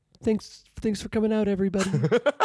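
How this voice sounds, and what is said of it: Imitates another person's voice. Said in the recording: “my Lemmy impression”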